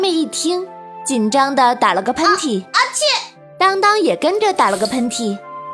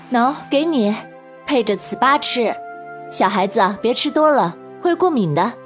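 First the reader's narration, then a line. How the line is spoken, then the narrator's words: Smiling. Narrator (Chinese): 妈妈笑了 说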